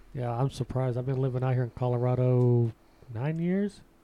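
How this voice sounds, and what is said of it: Strong Southern American accent. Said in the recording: “you have an accent, a big accent. ... It's the way you say certain words too. ... like y'all. ... Those are t- telltale southern things.”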